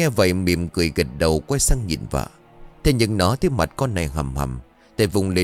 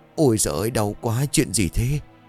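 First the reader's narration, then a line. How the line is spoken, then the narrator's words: Mumbling, groaning in pain. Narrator (Vietnamese): nó ú nớ rồi rên rỉ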